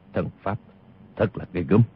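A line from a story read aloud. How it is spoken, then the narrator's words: Muttering. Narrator (Vietnamese): Tiêu Phong lẩm bẩm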